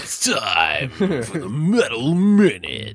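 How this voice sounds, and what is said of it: Moaning shock jock radio announcer voice. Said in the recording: “That's my radio voice. That's my shock jock. That's my shock jock moaning radio voice.”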